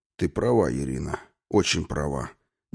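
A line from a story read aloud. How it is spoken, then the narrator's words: Quiet. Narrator (Russian): негромко произнес он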